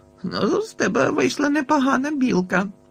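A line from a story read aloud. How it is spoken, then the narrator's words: Laughing. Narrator (Ukrainian): засміявся я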